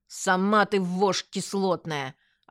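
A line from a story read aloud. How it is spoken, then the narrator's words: Snapping retort, female. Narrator (Russian): огрызнулась жонглёрша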